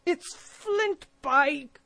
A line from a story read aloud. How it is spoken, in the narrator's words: cried Mary